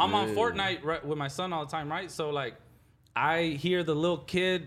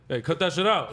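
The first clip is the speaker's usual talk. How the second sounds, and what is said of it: Deliberately deep voice. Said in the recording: “deep voice”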